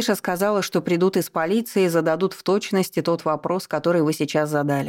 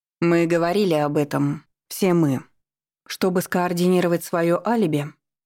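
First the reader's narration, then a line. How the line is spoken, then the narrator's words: Soft hint. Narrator (Russian): мягко намекнула Ева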